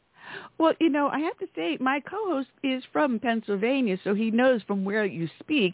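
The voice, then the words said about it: New York accent. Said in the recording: “I have a New York dialect.”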